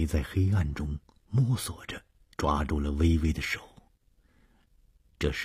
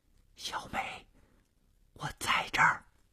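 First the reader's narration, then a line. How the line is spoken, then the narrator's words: Soft reply. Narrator (Chinese): 黑暗中传出了同样轻声的回答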